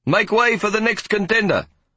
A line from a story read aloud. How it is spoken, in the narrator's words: I heard Hoppy shout